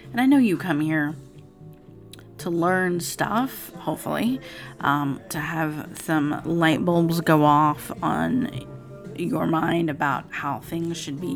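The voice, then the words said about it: Raspy voice. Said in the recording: “my voice is really raspy ... Still raspy.”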